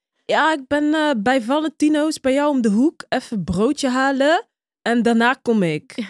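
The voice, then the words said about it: Imitated accent of a young driver. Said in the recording (Dutch): “Is het accent ... Ja, ja. Zo praat die.”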